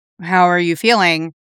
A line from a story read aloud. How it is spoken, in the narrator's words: he asked